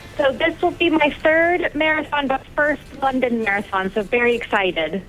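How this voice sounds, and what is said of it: American New Jersey accent. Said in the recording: “I don't believe this is a South West London accent. ... I'm originally from New Jersey in the US.”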